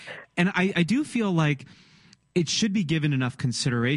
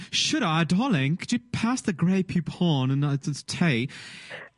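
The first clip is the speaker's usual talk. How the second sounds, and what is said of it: Put-on British accent. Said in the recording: “I always put a British accent to it”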